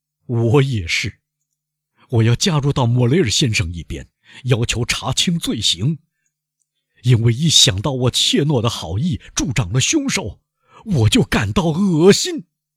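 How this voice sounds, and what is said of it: Loud, resonant voice. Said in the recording (Chinese): “他用洪亮的声音说”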